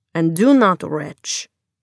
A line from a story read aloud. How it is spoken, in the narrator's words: said Magda sternly